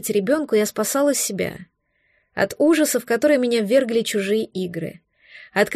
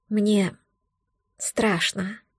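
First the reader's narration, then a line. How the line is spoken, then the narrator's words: Quiet confession. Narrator (Russian): тихо призналась я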